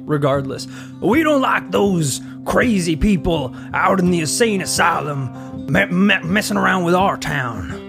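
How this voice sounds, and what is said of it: Put-on redneck Virginia accent. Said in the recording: “What's a Virginia accent like? ... It's going to be redneck, isn't it?”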